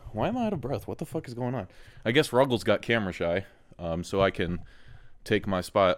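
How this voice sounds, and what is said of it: Out of breath, breathless speech. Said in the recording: “Why am I out of breath?”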